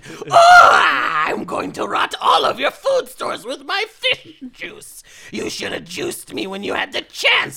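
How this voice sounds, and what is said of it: Witchy monster voice. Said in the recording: “that was a badass monster voice ... It was very witchy.”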